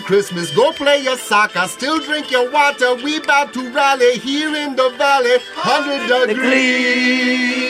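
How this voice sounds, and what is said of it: Put-on Jamaican accent. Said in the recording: “such a perfect Jamaican accent”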